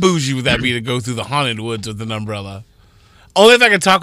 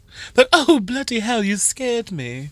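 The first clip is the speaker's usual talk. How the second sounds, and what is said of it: Put-on posh British accent. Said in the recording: “talk with a Downton Abbey accent”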